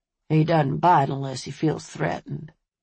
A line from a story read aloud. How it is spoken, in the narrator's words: To Buddy, he added, in a conciliatory tone